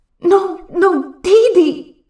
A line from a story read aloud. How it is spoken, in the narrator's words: Guga shouts in his mind